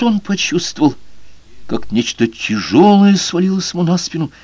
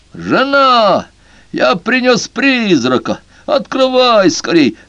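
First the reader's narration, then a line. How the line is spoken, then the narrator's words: Shouting at full strength. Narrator (Russian): закричал он, что было мочи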